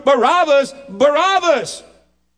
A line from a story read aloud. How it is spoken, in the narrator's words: Egged on by the scribes and Pharisees, these hypocrites, they shout